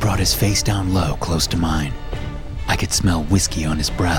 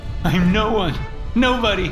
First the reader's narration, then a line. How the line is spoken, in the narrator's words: cried